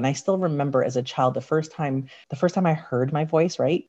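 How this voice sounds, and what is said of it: Raspy, slightly deep voice. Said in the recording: “I've got a raspy voice, it's a little bit deeper”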